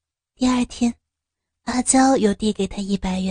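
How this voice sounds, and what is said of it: Usual voice. Nothing is said of it.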